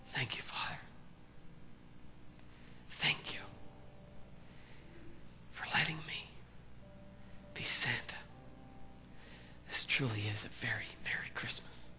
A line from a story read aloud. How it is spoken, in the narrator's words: he humbly whispered